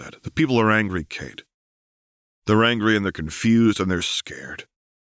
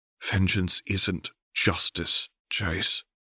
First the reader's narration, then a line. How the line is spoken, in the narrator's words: Caitlin said softly